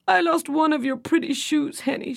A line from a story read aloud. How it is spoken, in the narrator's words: she sobbed